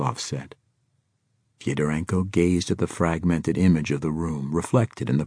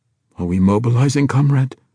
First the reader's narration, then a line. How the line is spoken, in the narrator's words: Svetlov asked breathlessly